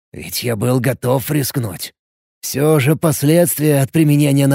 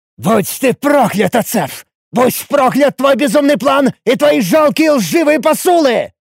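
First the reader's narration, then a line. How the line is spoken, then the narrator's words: Furious bull-like roar. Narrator (Russian): взревел я бешеным туром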